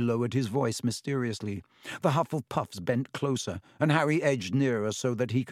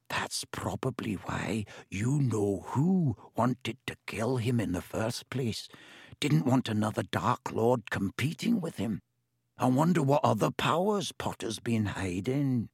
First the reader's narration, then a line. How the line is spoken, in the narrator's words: He dropped his voice until it was barely more than a whisper and said